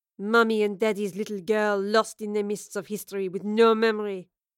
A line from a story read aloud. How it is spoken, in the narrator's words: Lorelei sneered